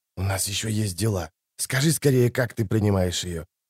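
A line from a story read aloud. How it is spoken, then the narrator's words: Whisper. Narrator (Russian): Кто-то прошептал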